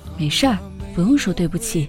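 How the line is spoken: Gentle, after a pause. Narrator (Chinese): 小蜜过了一会儿，才温柔地说

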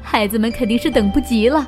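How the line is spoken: Cheerful, laughing. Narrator (Chinese): 妈妈笑呵呵的说道

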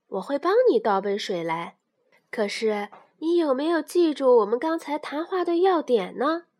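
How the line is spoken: Mother smiling. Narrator (Chinese): 妈妈笑着说

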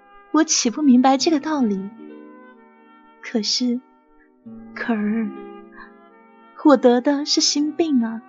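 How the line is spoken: Melancholy sigh. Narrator (Chinese): 红林妃惆怅的一叹道

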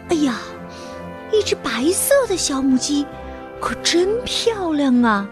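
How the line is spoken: Admiring exclamation. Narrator (Chinese): 不由得发出了赞叹

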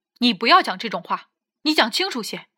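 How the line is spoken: Loud. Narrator (Chinese): 我大声道

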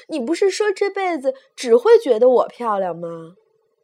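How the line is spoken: Shouting. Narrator (Chinese): 太太喊

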